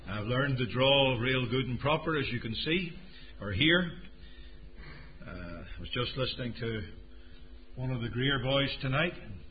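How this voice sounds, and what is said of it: South Carolina accent. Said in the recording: “I hope you can all understand my South Carolina accent.”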